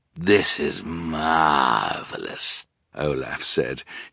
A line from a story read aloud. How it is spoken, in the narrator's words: his voice as raspy and wheezy as if he were poisoned himself